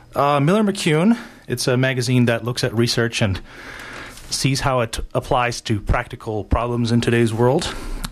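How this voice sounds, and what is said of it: Out of breath. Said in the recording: “I'm a little out of breath. I ran here again.”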